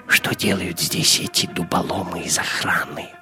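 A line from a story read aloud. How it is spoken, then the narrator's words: Whisper into ear. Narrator (Russian): прошептал Гитлер на ухо своему камердинеру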